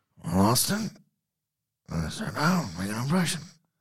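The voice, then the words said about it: Imitates another person's voice. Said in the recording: “do the voice? ... You can do impressions. That one's too good.”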